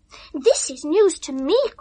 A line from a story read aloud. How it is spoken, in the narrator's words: cried Ethel, still peevish